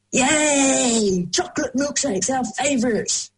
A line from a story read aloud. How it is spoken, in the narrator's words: they yelled